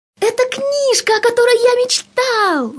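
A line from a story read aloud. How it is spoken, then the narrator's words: Shouted. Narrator (Russian): закричал Сережа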